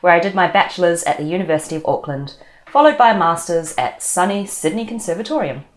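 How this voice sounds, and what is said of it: New Zealand accent. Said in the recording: “As you can probably tell from my accent, I'm from New Zealand”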